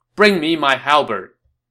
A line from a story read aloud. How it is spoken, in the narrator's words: And now Lu Bu got mad, and he called out to his guards